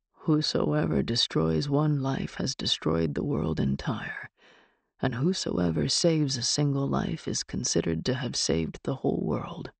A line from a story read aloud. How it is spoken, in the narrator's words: Hendrickson muttered